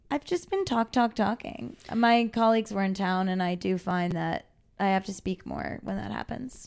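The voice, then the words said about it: Hoarse, nearly lost voice. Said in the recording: “my voice is gone ... I did instantly notice that”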